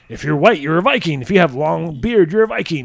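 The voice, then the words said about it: Imitates another person's voice. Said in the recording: “You're doing a Vince impersonation.”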